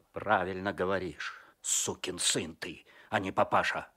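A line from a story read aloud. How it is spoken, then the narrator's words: Angry. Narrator (Russian): зло сказал Козлов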